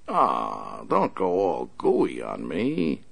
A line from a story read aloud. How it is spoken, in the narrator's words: the big man sneered